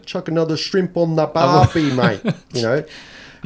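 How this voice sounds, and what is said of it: Put-on Australian accent. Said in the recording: “her Australian accent ... someone going at her about her accent”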